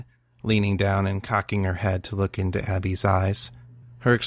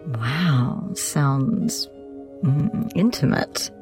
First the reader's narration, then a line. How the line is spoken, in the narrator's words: Jenna purred